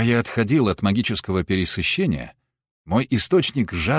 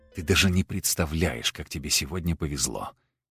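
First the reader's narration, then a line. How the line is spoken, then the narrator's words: Quiet whisper to self. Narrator (Russian): тихо прошептал я себе под нос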